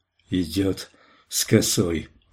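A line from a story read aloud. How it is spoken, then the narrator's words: Mutter. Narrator (Russian): бормотал Поу-Поу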